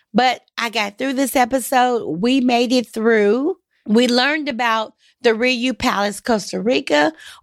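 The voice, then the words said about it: Hoarse voice. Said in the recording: “apologize for my voice. I am struggling with this horrible cough that I have and this hoarseness,”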